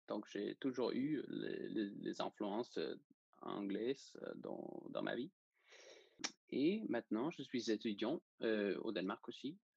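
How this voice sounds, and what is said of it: Slight Danish accent in French. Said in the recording (French): “je suis danois. Et c'est pour ça que j'ai un petit accent, peut-être.”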